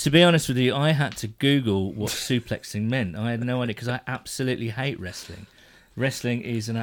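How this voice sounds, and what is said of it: Usual voice. Nothing is said of it.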